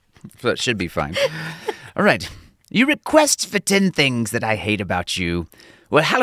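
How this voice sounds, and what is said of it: Usual voice. Nothing is said of it.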